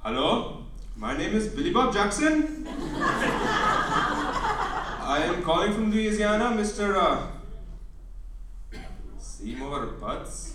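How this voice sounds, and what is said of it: Thick put-on Indian accent. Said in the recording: “put on a thick Indian accent”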